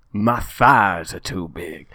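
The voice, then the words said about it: Inconsistent put-on American accent. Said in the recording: “my American accents today. They're all over the place.”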